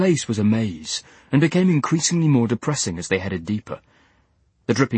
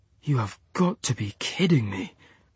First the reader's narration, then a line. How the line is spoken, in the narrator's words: breathed Max